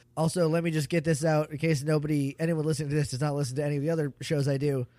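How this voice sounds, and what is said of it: Strained, uneven voice. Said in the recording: “I'm getting over a viral infection of my throat, so my voice is just doing a lot right now. It's ebbing and flowing, doing a lot of things. I'm trying to keep it even”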